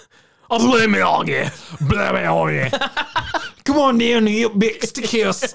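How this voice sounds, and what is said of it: Bad fake Australian accent. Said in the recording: “the fake Australian accent from Outback Steakhouse commercials ... an American doing a bad Australian accent”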